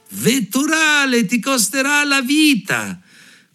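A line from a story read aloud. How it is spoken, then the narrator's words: Sparrow shouting. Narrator (Italian): il passero gridò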